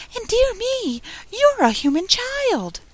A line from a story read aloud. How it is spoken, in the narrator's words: cried out in a voice of delight